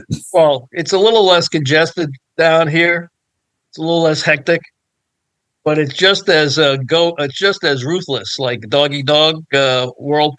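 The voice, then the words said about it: Bronx New York accent. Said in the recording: “you should be able to tell from my accent where I'm from originally. I'm from the Bronx, New York.”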